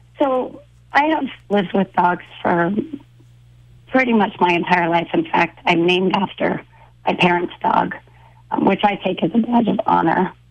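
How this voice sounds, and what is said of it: Hoarse, froggy voice. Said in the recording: “apologize for my voice... I've had a cold the last couple of days, and at least today I have some voice... apologize for the froggy sound”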